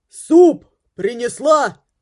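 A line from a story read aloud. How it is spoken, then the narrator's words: Shouted. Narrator (Russian): крикнул Грегори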